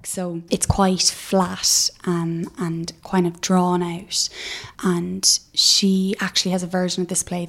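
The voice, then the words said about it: Irish Cork accent. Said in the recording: “your Cork accent ... I'm from Cork”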